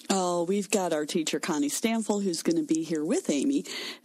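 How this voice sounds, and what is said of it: Slight Southern lilt. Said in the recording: “she's got that little southern lilt to her voice”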